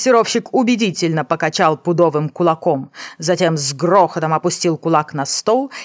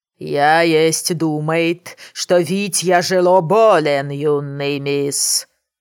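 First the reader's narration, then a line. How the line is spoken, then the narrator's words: Booming, heavy accent. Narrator (Russian): С чудовищным акцентом прогремел Брэдли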